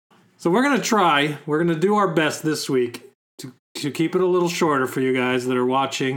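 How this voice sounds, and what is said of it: Slightly hoarse voice. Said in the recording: “my voice has been a little hoarse... just a little hoarse”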